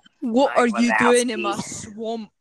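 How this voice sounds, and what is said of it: Put-on Scottish accent. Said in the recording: “Oh, that one was good. You sounded like the girl from Brave or whatever it's called with the red hair. ... Scottish.”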